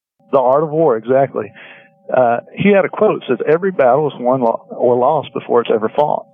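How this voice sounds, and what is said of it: Southern US accent, Tennessee. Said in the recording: “I'm from Tennessee, so sometimes my southern accent messes up people's names”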